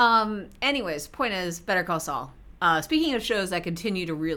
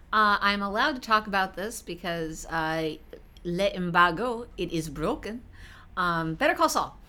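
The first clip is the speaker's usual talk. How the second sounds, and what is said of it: Bad put-on French accent. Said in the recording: “I went with the French accent ... how bad that French accent was”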